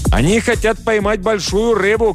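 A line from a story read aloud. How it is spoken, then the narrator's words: Shouted. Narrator (Russian): крикнул нам Джоао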